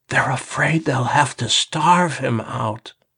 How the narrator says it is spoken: She whispered

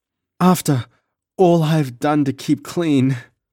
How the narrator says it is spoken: she sobbed

